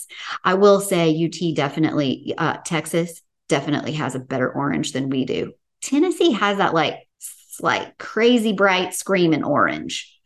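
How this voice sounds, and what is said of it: Southern US (Tennessee) accent. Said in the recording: “my accent ... Oh, I love your accent. Are you from the South? ... are you from Texas? No, it's the other UT ... Tennessee and Texas ... we have a similar accent.”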